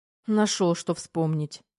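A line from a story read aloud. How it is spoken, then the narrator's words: Snorting. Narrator (Russian): фыркнула Тома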